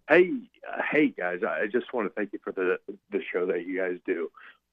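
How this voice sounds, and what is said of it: Congested voice from a cold. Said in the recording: “That is a sexy, I have a cold voice.”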